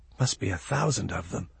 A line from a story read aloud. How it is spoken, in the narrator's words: The boy whispered